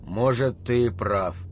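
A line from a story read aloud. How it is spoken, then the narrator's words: Muttered. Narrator (Russian): пробормотал Холл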